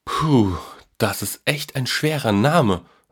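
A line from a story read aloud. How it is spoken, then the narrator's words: Plain. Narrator (German): sagte der Junge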